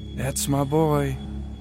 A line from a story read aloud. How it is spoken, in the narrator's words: She breathed in and said